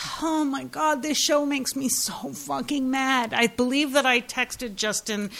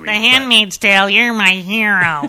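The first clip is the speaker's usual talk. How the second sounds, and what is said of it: Impersonates a movie character's voice. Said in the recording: “That's my Cameron from Ferris Bueller's Day Off impersonation.”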